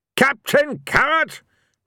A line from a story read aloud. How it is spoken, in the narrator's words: Ridcully roared